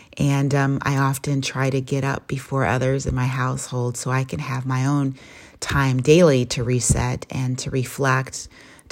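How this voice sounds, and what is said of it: Foggy early-morning voice. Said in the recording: “my audio voice, my reset voice, because this is the first part of the day ... my voice is a little foggy”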